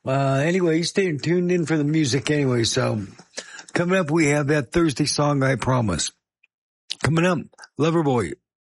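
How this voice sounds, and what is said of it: Failing, strained voice. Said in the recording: “it's not going to be with my did you know voice... the voice is going, oh no, my voice is going”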